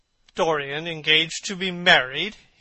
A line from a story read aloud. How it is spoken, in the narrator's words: he cried